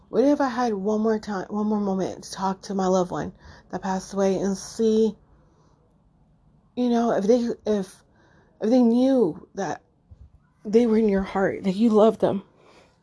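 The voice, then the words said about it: Choked-up, tearful voice. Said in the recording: “I'm getting all choked up”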